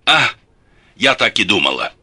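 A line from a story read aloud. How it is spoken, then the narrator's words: Deep sigh, then speaking. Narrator (Russian): глубоко вздохнула и сказала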